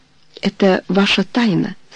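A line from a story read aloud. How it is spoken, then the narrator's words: Very gentle. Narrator (Russian): сказал очень мягко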